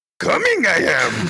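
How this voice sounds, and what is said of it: Shrill, cracked Yoda impression. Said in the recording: “Yoda screamed out from his tiny, shrill, age-cracked voice ... You gotta do the voice ... That was very good ... I've heard Yoda coming a lot ... that was like very accurate. That was really good.”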